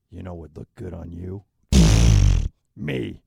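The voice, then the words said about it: Put-on sexy voice, sounds creepy. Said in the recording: “can you do a sexy voice? ... That's scary. That voice is scary. ... creepy”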